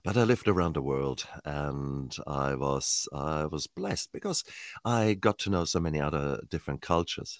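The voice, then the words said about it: Mixed German-origin accent. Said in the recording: “I was originally born in Germany, Heidelberg, Mannheim, the south center of Germany... my accent is probably very bastardized and depends upon how tired I am. Sometimes people think I'm Irish”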